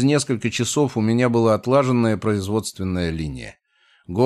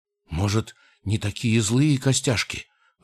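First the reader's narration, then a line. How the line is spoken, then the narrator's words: Timid goblin suggesting. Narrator (Russian): робко предположил гоблин с ситом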